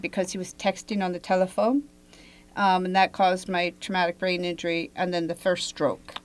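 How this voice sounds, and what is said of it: Foreign-sounding accent. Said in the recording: “it changes my accent. I have foreign accent syndrome. ... So as I speak to you, my accent may change.”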